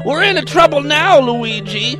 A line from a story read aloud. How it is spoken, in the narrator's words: wailed Mario